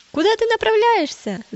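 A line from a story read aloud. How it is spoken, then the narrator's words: Approaching group shouting. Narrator (Russian): закричали они, подходя ближе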